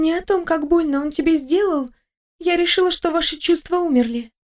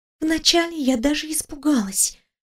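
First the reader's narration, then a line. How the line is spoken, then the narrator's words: Whispered confession. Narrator (Russian): шепотом призналась подруга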